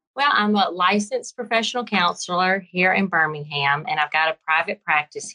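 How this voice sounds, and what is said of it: Southern American accent. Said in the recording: “you have a bit of an accent ... old Southern girl from Alabama”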